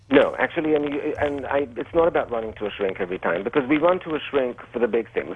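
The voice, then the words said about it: Quasi-European accent, sounds official. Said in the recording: “this accent makes you sound like you're really official ... like you're Freud or something ... a quasi-European accent”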